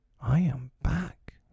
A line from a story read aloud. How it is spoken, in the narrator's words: he said hotly